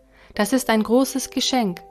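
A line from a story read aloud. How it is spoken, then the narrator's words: Plain. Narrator (German): sagte Gott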